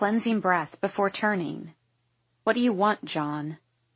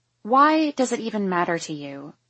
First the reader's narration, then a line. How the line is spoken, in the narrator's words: I sigh